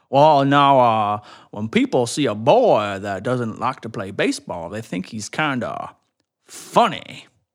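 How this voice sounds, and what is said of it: Imitates a cartoon character's voice. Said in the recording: “Foghorn Leghorn says ... why are you still doing this impersonation?”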